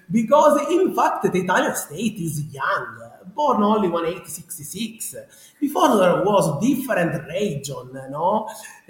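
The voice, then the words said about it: Strong Sicilian Italian accent. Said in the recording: “my strong Sicilian accent... this is the original Sicilian accent”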